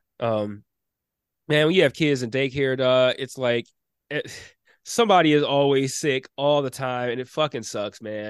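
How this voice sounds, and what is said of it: Stuffy, congested voice. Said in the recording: “pardon my voice. I'm a little stuffy.”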